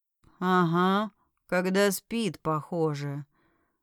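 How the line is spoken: Mumbled. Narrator (Russian): промямлил

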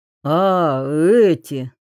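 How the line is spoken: Sigh. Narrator (Russian): Гоглидзе вздохнул

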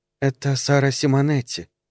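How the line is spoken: Soft-voiced woman. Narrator (Russian): сказала сеньора мягким голосом

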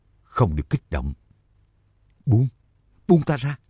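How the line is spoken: Whispered. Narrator (Vietnamese): thì thào

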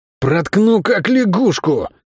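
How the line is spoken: Hoarse warning. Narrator (Russian): Хрипло предупредил его тип

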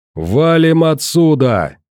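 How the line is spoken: Yelled. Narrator (Russian): заорал

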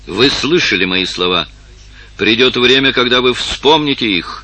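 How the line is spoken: Firm voice. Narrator (Russian): сказал твердым голосом принц

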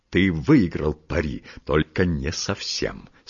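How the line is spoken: Spiteful, smiling. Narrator (Russian): сказал он, злобно улыбаясь

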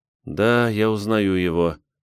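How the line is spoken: Sad. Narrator (Russian): грустно

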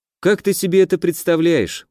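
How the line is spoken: Weary question. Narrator (Russian): устало поинтересовался я

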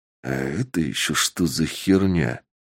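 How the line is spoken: Muttered. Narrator (Russian): пробормотал Сергей

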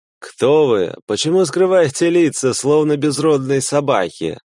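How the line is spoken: Laughing. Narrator (Russian): засмеялся второй

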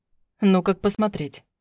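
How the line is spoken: Skeptical grunt. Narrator (Russian): хмыкнул Власов

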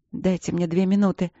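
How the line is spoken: Hoarse request. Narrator (Russian): хрипло попросила она

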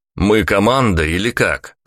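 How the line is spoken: Shouting. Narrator (Russian): крикнул я

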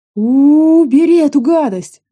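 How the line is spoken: Wailing. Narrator (Russian): завопила следом самая жалостливая из компании

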